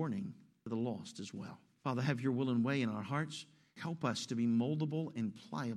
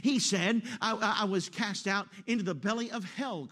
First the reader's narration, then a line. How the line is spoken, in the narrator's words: cried I